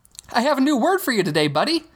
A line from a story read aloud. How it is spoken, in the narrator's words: Hogarth said, brightly